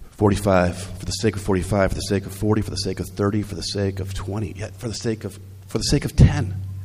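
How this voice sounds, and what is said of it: Voice still not clear, strained. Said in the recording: “I was quite ill this week. I'm better now. But my voice is not in the clear.”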